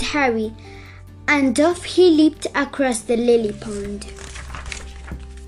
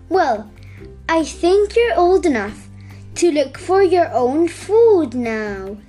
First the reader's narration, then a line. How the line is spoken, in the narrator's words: said Mummy Frog